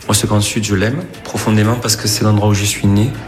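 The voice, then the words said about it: Southern French accent, slight Corsican. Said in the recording (French): “C'est le petit accent qui vous a aiguillé ... L'accent du sud avec la petite Corse qui est derrière.”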